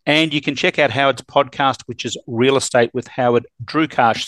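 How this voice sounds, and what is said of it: Australian accent. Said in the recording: “My name sounds so much better with an Aussie accent ... You do stand out a little bit when you don't speak Canadian”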